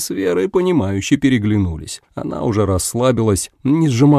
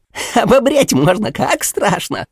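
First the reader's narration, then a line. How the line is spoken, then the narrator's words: Sable laughing hysterically. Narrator (Russian): заходился в хохоте соболек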